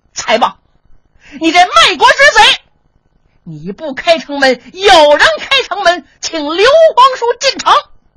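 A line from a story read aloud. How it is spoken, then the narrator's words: Sudden loud shouting. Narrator (Chinese): 突然间有人高声喊嚷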